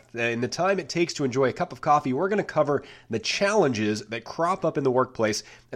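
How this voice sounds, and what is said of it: Voice still rough from a cold. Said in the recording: “You may still hear it in my voice ... I was whacked with some sort of cold flu cough ... listening to my voice was not a pretty picture”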